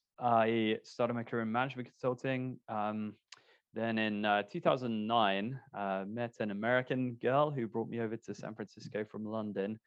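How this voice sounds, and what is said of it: British accent. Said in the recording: “from the UK originally, as you may be able to tell from the accent”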